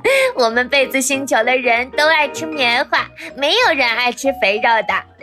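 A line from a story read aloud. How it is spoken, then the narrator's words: Grinning, cheerful. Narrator (Chinese): 一个小枕头咧嘴笑道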